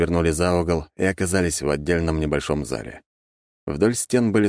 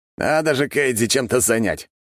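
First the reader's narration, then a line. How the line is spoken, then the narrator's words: Amused snort. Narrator (Russian): хмыкнул он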